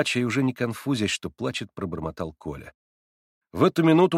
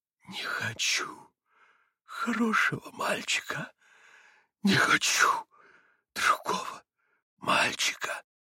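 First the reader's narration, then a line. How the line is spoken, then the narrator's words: Wild whisper through gritted teeth. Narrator (Russian): прошептал он диким шепотом, скрежеща зубами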